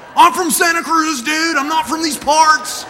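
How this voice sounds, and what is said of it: Thick put-on American accent. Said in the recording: “I'm trying to really put on the American accent thick”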